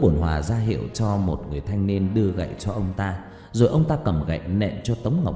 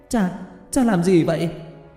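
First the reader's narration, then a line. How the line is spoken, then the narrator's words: Shout. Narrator (Vietnamese): Hứa Tiểu Lan hét lên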